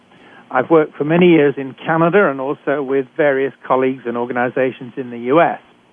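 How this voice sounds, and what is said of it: British accent. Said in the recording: “I'm a physician trained in Britain, as you can tell from my accent.”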